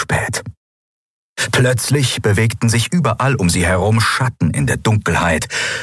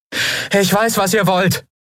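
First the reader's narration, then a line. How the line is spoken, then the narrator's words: Calling into forest. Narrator (German): rief Andriel in den Wald hinein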